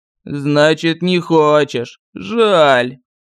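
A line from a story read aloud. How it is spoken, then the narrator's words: Regretful drawl. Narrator (Russian): с сожалением протянул колдун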